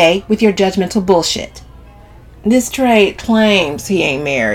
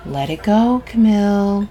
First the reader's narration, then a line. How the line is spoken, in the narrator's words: Sabrina warns in a low voice